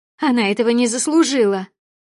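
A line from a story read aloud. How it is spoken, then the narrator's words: Sudden shout. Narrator (Russian): Внезапно выкрикнула Маргарита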